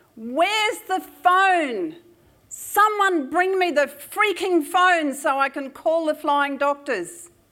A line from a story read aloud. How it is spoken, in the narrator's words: I yelled